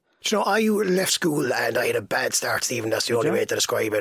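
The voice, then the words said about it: Irish Waterford accent with hybrid twang. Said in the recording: “a bit of a Waterford kind of accent going on there ... I've got a bit of a unique twang ... A hybrid model”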